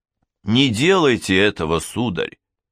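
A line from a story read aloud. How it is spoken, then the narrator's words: Deeply sad. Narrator (Russian): сказал он мне так печально, что я чуть было не заплакал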